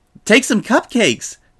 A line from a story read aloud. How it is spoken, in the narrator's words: Pinky said frantically to Dash